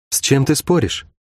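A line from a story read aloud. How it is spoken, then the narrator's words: Quiet question. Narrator (Russian): тихо поинтересовалась у него Шерон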